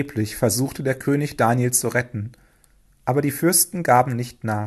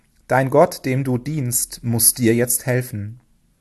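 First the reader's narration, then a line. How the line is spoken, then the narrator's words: Sad. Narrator (German): sagte traurig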